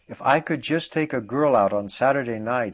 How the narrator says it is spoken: exclaimed

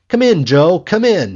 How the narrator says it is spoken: he called out

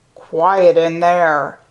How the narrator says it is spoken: clanged harshly

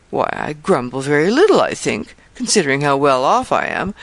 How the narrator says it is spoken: rejoined, with a laugh

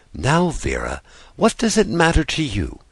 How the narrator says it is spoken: said Natasha in defense, speaking very gently

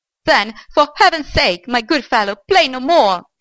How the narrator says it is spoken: shouted the old man

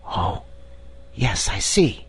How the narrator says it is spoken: whispered Diamond

